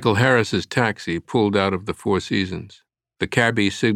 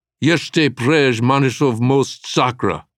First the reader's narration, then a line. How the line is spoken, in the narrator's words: Harris shouted in profanity-laced Czech